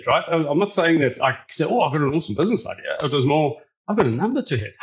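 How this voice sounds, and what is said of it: Unusual accent with South African influence. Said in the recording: “Johannesburg, South Africa, which is why I have that weird accent.”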